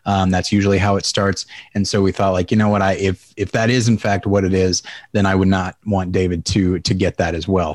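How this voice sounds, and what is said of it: Subdued, slightly scratchy voice. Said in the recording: “my voice is a little subdued ... I noticed a scratchiness in my throat”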